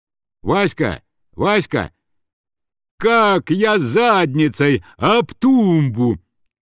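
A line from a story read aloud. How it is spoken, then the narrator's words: Child shouting. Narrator (Russian): кричал маленький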